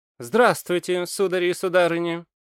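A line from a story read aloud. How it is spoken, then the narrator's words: Cheerful. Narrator (Russian): бодро произнес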